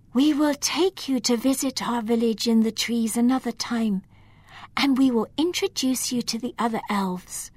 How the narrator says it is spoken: Eleanor whispered

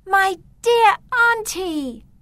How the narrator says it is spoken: she said happily

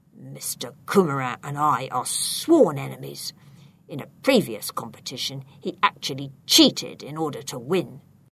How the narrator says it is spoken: He whispered in a cross voice

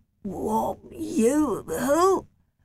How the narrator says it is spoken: stammered

